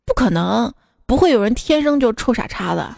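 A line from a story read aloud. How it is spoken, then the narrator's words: Sighing, earnest. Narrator (Chinese): 大叔叹了口气，语重心长的说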